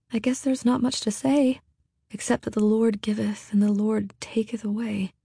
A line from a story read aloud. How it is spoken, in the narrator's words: Hester said softly